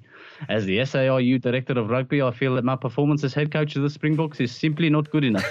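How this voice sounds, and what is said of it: Put-on South African accent, slipping French. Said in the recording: “I can't believe I managed to hold that accent... It went on Jake White, I'll be honest... it went a bit Inspector Clouseau on Jake White... I hadn't thought how you pronounce phone number in South Africa.”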